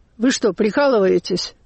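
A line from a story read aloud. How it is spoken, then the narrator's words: Said rather rudely. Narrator (Russian): Женщина сказала довольно грубо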